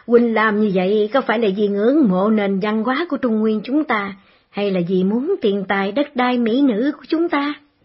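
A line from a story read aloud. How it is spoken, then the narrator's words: Loud laughing. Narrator (Vietnamese): Khấu Trọng cười lớn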